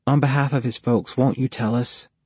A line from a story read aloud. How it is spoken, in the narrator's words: Jody asked softly